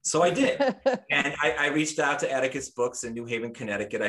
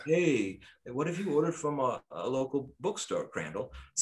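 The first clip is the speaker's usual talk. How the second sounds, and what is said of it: Imitates another person's voice, laid-back. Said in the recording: “doing a Matt Dellavigna impersonation ... I tried to bring my Matt Dellavigna West Coast chill, although he had some Brooklyn in him for a while too”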